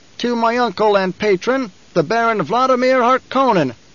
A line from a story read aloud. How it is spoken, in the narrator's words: Fade Rotha shouted